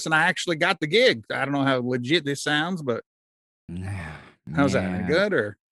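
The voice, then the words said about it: Fake Southern American accent. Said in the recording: “I used my fake Southern accent like this”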